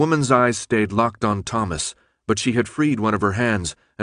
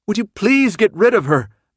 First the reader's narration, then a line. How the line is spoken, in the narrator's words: Brenda shouted